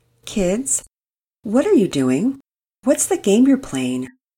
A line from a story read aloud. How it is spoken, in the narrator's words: Mama Peters asked calmly